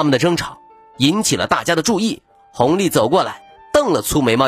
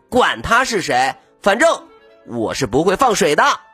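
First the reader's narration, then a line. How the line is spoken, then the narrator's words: Deliberately loud, displeased. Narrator (Chinese): 孙小空很不喜欢他鬼鬼祟祟的样子，故意大声说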